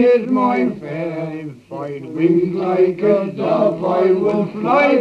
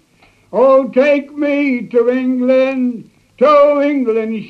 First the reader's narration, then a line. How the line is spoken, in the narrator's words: she cried